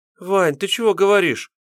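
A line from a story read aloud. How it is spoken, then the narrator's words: Babbling. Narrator (Russian): залепетала девушка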